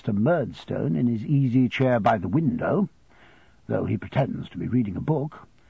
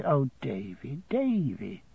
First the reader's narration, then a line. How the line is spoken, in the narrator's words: she says softly